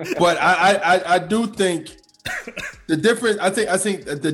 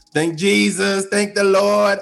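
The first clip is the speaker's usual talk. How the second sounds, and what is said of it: Cardi B impression, smoky old-lady voice. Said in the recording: “good impression. ... I know it's bad. I sound like I'm an old lady that smokes”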